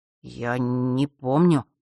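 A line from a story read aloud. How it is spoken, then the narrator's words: Terrified muttering. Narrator (Russian): наконец пробормотал Фэш, бледнее от ужаса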